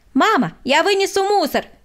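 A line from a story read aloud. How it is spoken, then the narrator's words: Shouting. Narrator (Russian): крикнул Владик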